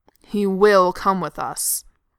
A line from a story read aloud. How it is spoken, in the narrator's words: Thorin growls, furious to have to make this argument